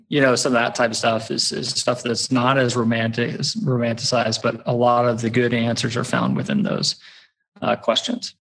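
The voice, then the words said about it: Slight Texas twang. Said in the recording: “a twinge or a twang, if you will, in your voice that suggests that you're not necessarily, you weren't born and raised here in Colorado”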